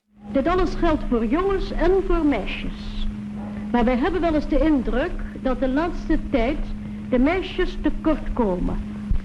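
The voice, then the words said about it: Distinctive refined Dutch accent. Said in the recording (Dutch): “Wat een mooi accent heeft.”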